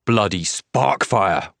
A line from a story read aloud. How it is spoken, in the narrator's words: Rock snarls, his voice rising